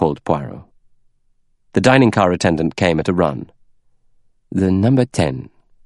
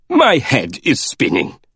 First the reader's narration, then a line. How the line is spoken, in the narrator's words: groaned Monsieur Bouc